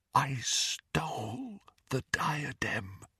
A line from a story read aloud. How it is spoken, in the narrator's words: repeated Helena Ravenclaw in a whisper